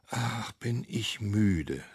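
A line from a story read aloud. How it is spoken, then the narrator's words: Boy sighing. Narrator (German): seufzt der Junge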